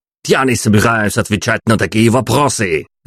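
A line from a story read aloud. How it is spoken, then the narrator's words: Barked. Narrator (Russian): рявкнул Дитер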